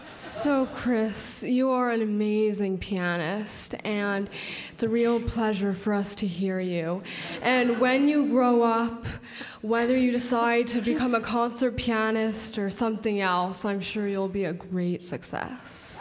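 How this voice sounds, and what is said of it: Impression of the show's host. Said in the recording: “do an impersonation of me”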